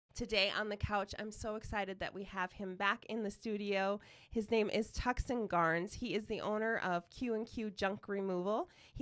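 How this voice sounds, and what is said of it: Congested, nasal voice. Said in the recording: “I have a cold... I'm recovering, so I sound horrible and nasally”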